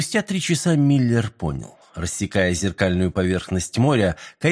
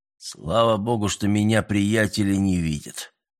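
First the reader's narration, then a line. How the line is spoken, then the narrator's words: Grumbling. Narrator (Russian): проворчал он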